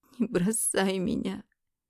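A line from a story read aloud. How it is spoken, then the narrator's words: Bitter sobbing. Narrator (Russian): горько разрыдалась я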